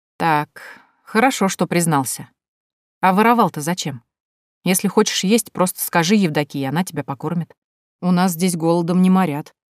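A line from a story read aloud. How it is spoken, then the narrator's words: Calm. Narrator (Russian): спокойно ответила я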